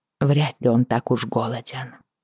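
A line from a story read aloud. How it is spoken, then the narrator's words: Muttered. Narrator (Russian): пробормотала я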